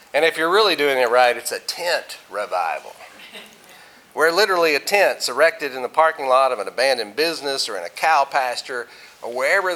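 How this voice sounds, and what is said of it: Southern American accent. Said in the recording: “you may be able to tell by my accent that I'm not from around here ... grew up in Arkansas, so I talk funny”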